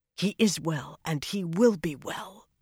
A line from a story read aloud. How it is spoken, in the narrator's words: Avienda whispered fiercely